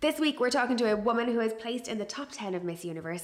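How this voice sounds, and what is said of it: Polished radio-presenter voice. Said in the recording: “I love your voice. You've actually got a great radio voice.”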